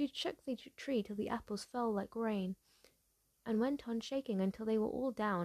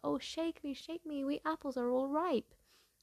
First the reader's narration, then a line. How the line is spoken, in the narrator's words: a tree covered with apples, which called out